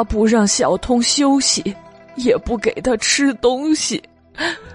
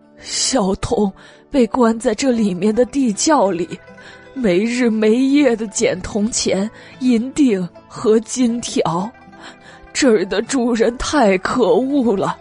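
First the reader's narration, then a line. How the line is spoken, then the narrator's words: Tearful complaining. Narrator (Chinese): 蜜色荷花盏哭丧着脸说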